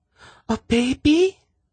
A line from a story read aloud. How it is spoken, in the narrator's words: Sinedra exclaimed